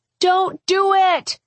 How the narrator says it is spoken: Julie yelled from across the lawn

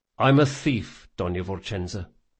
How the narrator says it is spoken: he said quietly

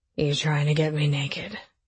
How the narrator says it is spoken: Drew slurred

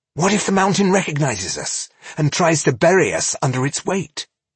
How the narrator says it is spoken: he asked nervously

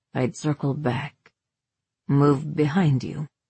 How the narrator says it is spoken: he continued, voice rumbling from somewhere low in his throat

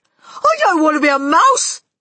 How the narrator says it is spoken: Bruno shouted, jumping up and down

